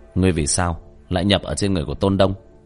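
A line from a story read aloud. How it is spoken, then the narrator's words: Cold. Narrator (Vietnamese): Tiểu Thất lạnh lùng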